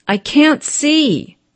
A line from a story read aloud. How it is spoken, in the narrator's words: cried the servant